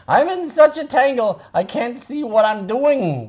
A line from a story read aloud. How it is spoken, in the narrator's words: wailed Octopus